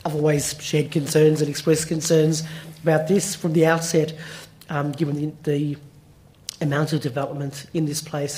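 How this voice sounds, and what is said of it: Strained, struggling voice. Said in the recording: “my voice is struggling”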